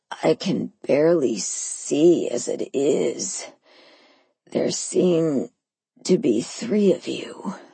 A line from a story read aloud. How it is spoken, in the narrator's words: he moaned